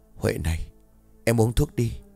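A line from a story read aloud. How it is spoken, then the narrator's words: Whispered. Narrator (Vietnamese): thì thầm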